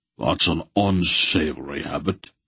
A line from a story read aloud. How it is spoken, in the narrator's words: Beric grunted darkly